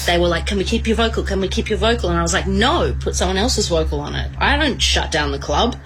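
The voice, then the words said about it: Female Australian accent. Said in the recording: “Australian accent, female.”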